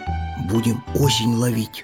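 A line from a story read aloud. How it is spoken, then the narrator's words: Whisper, small hedgehog. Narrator (Russian): шепотом сказал ежик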